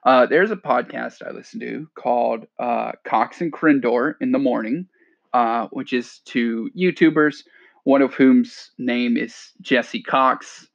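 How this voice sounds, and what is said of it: Stuffy, congested nasal voice. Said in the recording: “I sound stuffy”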